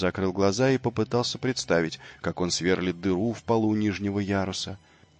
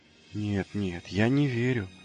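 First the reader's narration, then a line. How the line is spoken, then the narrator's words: Breathless. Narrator (Russian): выдохнул он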